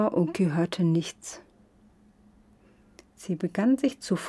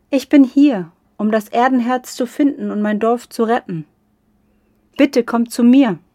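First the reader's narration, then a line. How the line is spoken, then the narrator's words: Calling again. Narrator (German): Sie rief noch einmal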